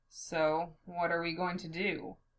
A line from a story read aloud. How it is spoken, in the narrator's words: Levi asks flatly